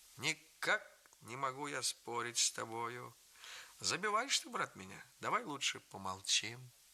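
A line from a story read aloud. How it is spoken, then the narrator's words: Soft sweet laughter. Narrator (Russian): Он тихонько, удивительно мило смеется ... и говорит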